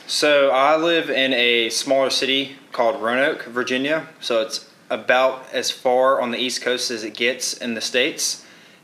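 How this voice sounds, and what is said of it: American accent. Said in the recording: “That is an American accent, the first accent on this podcast.”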